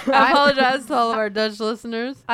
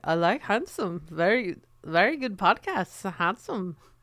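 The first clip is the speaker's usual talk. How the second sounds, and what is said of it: Imperfect put-on Dutch accent. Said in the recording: “I'm not nailing the Dutch accent”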